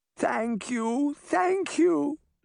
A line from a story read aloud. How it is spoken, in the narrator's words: she cried